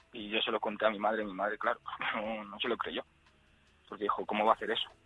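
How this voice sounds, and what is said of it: Trembling, emotional voice. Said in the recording (Spanish): “se me está poniendo la voz temblorosa otra vez”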